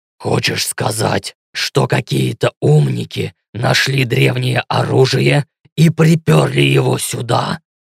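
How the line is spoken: Growling question. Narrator (Russian): Рычащим тоном спросил Ленс

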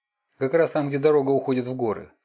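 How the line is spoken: Plain. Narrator (Russian): сказал Тим

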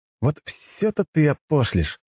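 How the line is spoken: Burst out laughing. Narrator (Russian): расхохотался я

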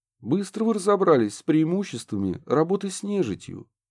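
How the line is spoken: Sighed. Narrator (Russian): вздохнул Курт

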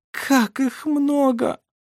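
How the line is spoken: Moaning. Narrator (Russian): простонала Шира

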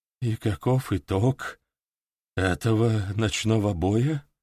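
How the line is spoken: Hoarse question. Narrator (Russian): хрипло спросил Людовик

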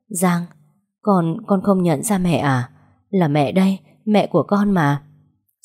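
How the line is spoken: Trembling call. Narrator (Vietnamese): Mẹ run rẩy gọi

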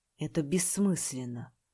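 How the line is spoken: Muttering. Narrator (Russian): пробормотал

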